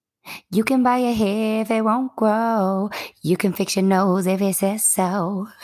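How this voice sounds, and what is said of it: Singing in a light falsetto. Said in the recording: “Oh, it's a little falsetto.”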